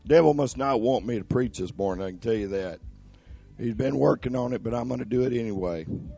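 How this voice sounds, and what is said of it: Troubled, hard-to-understand voice. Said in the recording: “My voice is giving me a little trouble this morning ... you might have to turn my mic up just a little bit to understand what I'm saying”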